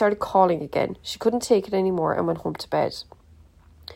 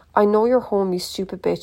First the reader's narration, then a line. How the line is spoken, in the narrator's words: snarled